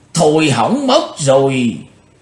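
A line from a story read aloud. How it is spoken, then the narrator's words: Panicked cry. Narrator (Vietnamese): Bắt độc lão ma hoảng hốt kêu lên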